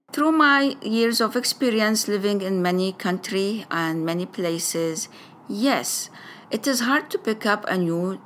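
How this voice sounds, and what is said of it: Arabic-accented English. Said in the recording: “my first language I said Arabic... I will have an Arabic way with it”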